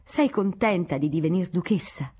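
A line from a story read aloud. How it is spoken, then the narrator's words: Exclaimed. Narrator (Italian): esclamò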